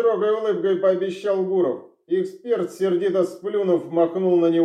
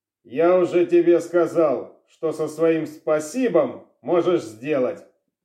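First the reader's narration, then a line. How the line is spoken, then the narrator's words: Grumbling. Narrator (Russian): проворчал Шилов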